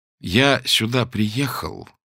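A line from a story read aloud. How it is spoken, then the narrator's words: Slow speech. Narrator (Russian): медленно проговорил он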